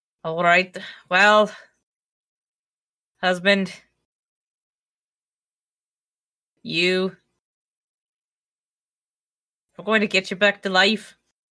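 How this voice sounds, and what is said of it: Put-on weird Irish-Scottish accent. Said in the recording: “It's sort of a weird Irish Scottish.”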